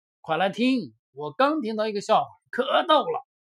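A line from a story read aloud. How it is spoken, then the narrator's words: Loud shout. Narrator (Chinese): 艾玛扯开嗓子喊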